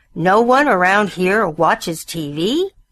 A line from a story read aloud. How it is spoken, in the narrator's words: Bill roared